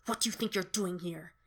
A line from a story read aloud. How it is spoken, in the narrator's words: She hisses at him